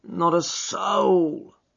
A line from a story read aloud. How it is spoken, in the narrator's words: groaned Hall Pycroft